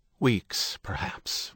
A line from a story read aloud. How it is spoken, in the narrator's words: Ruckerman said, a sigh in his voice